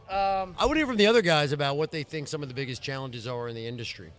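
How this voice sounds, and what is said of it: American East Coast accent. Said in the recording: “This is probably like half New Jersey, New York, D.C., and Philadelphia all combined. This is definitely an American accent.”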